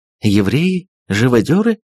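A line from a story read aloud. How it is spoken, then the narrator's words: Astonished exclamation. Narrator (Russian): в изумлении воскликнула госпожа Перманедер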